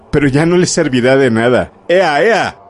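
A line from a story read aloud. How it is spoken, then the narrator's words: Shouted. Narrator (Spanish): dijo gritando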